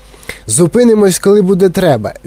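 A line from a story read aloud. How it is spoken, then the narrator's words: Plain. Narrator (Ukrainian): відповів містер Вонка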